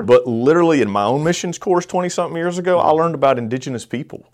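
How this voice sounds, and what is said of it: Southern US accent. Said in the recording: “I have a southern accent ... Add a little Alabama and Georgia”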